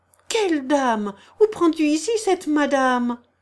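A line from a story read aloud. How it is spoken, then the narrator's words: Cheerful interruption. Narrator (French): interrompit gaiement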